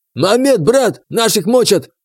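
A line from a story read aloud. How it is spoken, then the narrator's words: Yelling. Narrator (Russian): заорал он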